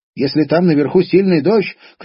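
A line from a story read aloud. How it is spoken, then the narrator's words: Shouting. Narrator (Russian): крикнула Белогорочка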